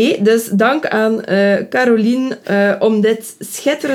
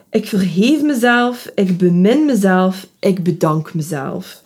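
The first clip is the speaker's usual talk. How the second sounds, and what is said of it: Put-on Ghent Flemish accent. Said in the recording (Dutch): “met een Gentse accent gereciteerd”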